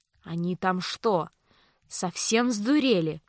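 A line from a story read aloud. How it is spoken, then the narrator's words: Indignant hiss. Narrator (Russian): прошипел Винсент возмущенно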